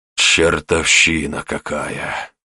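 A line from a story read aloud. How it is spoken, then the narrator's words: Grumbling. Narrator (Russian): пробурчал царь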